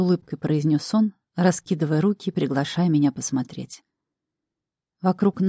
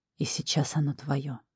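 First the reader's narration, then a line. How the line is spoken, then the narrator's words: Man whispering in matching tone. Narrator (Russian): в тон мне прошептал мужчина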